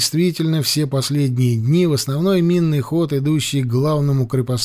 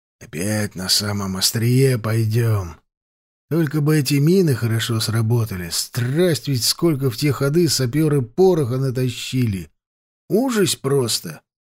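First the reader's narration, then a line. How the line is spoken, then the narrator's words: Sighing mutter. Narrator (Russian): Макарыч глубоко вздохнул, пробормотал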